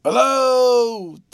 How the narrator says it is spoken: Tuttle's cries out, unmeaningly alarmed

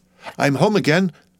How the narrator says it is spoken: she exclaimed

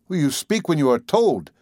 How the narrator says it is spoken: exclaimed my uncle

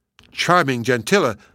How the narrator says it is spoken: cried the fairy

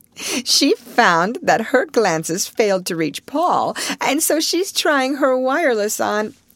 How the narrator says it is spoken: Alice laughingly added

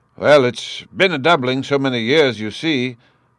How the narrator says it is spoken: the tailor replied a little gruffly

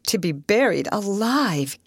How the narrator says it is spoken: gasped Miss Dixon

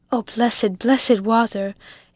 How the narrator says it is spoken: exclaimed Biddy

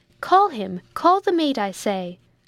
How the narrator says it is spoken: cried out Jack, in a voice that proved how much he was in earnest

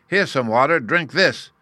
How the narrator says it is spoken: Uggug bellowed

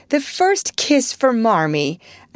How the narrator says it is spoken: Meg cried

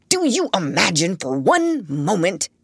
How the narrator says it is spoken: he spluttered

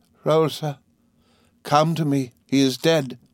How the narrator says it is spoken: Suddenly she cries in a terrible voice

